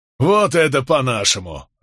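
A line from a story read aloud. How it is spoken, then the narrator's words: Group laughter. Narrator (Russian): расхохотались остальные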